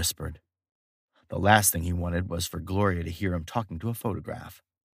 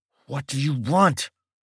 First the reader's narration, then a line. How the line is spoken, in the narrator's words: Mike spoke through clenched teeth